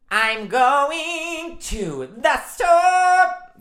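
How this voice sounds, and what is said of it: Sung in a Broadway singer voice. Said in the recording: “I could do my Broadway voice ... That's every Broadway singer ... That's how they all sing.”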